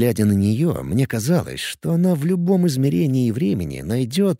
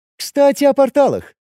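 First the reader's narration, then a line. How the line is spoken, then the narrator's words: Cheerful. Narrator (Russian): весело сказала Кира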